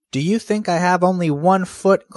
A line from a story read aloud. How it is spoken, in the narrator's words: cried Brother Rabbit